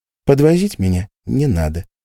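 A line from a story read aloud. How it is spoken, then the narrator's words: Dry, harsh. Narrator (Russian): сухо и жестко добавила Орли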